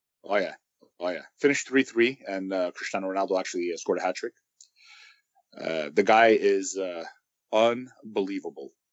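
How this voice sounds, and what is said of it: Raw, hoarse voice. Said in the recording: “that's why my voice is a little raw... raw timber to it”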